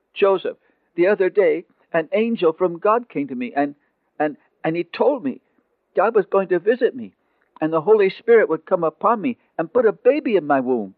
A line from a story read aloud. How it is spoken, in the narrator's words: desperately, for the words seemed terribly brutal as they came out of her lips, she blurted out